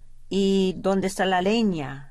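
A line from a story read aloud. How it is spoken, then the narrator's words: Plain. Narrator (Spanish): dijo ella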